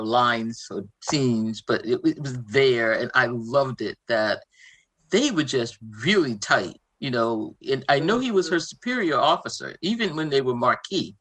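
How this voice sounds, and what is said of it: Boston accent. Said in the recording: “your Boston accent ... Really twanging?”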